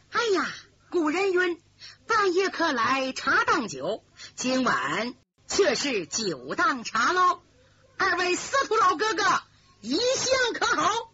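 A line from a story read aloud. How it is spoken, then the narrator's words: Cocky laughing. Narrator (Chinese): 李明神气十足的笑着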